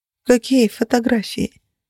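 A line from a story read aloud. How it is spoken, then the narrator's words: Dejected question. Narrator (Russian): Уныло переспросила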